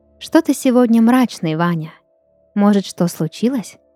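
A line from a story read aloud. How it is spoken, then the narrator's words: Plain. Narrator (Russian): спросила Елена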